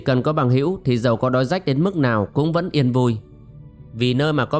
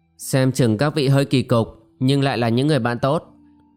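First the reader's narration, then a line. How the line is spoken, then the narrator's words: Sighing. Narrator (Vietnamese): vệ phu nhân thở dài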